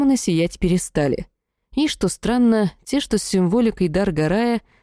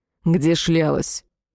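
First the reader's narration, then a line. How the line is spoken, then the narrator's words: Angry demanding question. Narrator (Russian): разгневанный птычка и зло спросил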